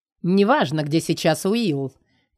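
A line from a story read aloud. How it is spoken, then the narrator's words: Strained menacing tone. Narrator (Russian): Червяк пытается вещать угрожающим тоном, еле сдерживаясь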